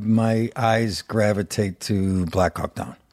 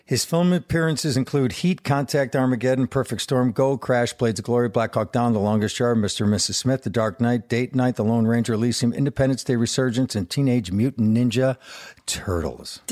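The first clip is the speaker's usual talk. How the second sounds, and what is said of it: Long list read in one breath. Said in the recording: “read this next part in one breath ... You did take a tiny breath, but that was still an accent breath. Impressive.”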